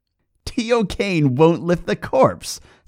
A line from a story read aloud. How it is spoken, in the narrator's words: said the little man with a wicked laugh, like the striking of a cracked bell